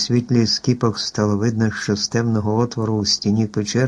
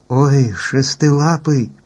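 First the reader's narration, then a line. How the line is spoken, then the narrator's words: Frightened cry. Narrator (Ukrainian): злякано скрикнула Еллі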